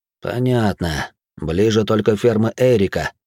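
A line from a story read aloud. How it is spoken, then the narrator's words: Through gritted teeth. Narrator (Russian): процедил динамит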